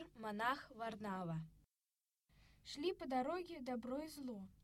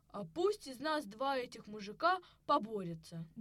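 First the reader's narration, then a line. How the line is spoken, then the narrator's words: Angry. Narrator (Russian): говорит зло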